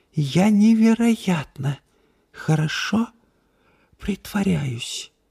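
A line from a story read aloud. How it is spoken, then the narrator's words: Whisper. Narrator (Russian): прошептала она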